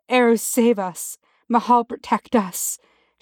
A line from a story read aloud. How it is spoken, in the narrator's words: she breathed